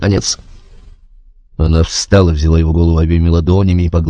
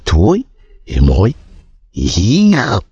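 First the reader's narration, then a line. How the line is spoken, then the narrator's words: Hissed through teeth. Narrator (Russian): прошипел сквозь зубы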